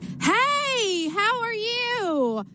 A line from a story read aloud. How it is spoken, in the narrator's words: screaming through the phone